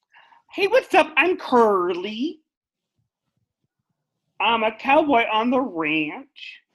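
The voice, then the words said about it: Imitates another person's voice. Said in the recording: “my impression of Lin-Manuel Miranda playing Curly”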